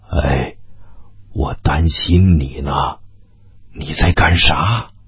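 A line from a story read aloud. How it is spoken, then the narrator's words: Soft. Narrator (Chinese): 驴子轻声地说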